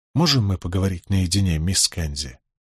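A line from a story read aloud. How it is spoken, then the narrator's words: Quiet. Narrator (Russian): Николас тихонько сказал Беатрис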